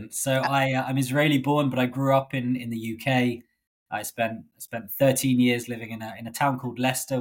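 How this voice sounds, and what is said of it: British accent. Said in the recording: “You're Israeli, but you speak with a British accent.”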